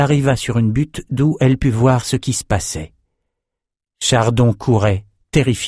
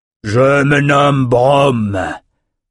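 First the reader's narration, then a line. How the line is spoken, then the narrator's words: Giant reptile's thundering voice. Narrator (French): tonna le reptile géant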